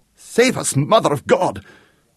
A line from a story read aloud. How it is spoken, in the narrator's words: shrieked the Count